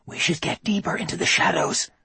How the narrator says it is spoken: Anna whispered

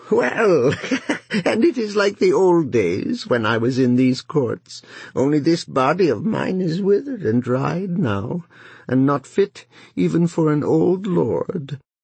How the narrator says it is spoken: Cuckoo, seeing all that had come about, laughed and said

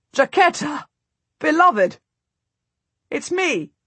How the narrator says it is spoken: I gasp

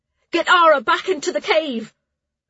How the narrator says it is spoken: she shouted

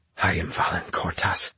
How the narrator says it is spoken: he whispered through cracked lips

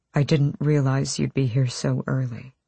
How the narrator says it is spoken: he said softly

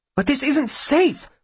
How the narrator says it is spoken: Will exclaims, suddenly trembling with fury

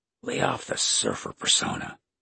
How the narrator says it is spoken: Kate whispered

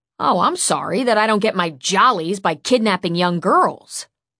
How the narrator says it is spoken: Loki snapped back

